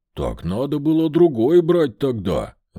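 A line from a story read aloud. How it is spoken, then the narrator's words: Growling dog. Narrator (Russian): рыкнул пес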